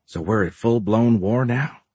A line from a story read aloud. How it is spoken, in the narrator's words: Fisher muttered